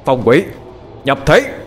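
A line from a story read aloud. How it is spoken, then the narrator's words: Shout. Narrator (Vietnamese): Sau tiếng quát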